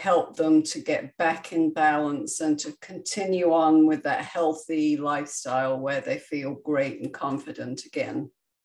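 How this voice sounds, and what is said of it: Non-American accent. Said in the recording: “is not from America. If you can't tell by her accent.”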